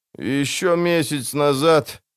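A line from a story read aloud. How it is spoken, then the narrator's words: Moaning from behind. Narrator (Russian): застонал у него за спиной Кагыр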